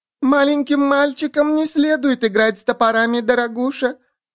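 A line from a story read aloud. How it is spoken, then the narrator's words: Sweet trembling little voice. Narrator (Russian): произнес этот рот сладким дрожащим голоском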